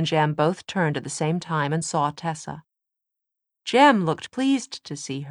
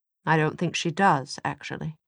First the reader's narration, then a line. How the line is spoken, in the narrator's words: Will said, but rather quietly, so Tessa doubted Mortmain could hear him